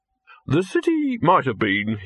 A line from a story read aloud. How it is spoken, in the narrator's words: he said stiffly